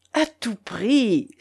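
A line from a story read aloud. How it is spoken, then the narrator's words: Exclaiming. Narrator (French): s'écria Isaac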